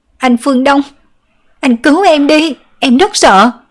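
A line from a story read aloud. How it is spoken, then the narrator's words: Loud frightened wailing. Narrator (Vietnamese): bị dọa cho sợ mềm chân, lớn tiếng gào khóc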